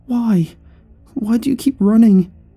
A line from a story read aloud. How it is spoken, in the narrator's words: whimpered